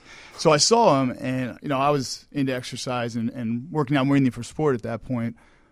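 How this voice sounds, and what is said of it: New York accent. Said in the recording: “I'm from New York, if you can't tell from my accent.”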